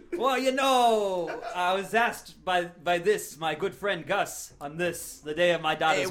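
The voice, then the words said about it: Exaggerated put-on accent. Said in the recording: “the accents you are doing are very offensive”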